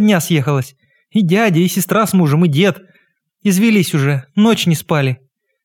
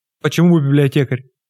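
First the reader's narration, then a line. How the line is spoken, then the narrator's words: Man's gentle surprise. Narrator (Russian): ласково удивился мужчина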